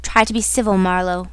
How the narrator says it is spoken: growled a voice

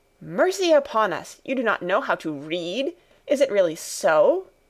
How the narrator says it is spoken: exclaimed Fräulein Rottenmeier, greatly horrified

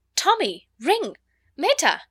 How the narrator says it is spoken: cried out in amazement

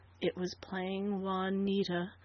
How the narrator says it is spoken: Flora answered wearily, over and over

